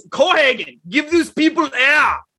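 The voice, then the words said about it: Put-on Austrian accent. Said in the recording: “it's written in an Austrian accent.”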